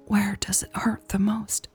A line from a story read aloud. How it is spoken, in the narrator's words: Elle whispered